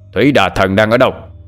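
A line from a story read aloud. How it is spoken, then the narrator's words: Roaring. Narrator (Vietnamese): Thanh Tự lại gầm lên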